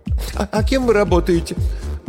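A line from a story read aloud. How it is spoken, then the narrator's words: Calming after a last sob. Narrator (Russian): Она напоследок всхлипнула и успокоилась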